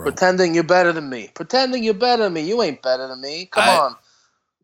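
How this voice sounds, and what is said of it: Put-on Brooklyn accent. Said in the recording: “are you from Brooklyn? ... Couldn't you tell from my steady accent?”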